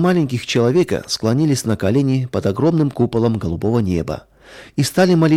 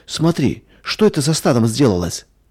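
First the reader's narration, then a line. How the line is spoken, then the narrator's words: Frightened cry. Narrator (Russian): испуганно вскрикнула Надя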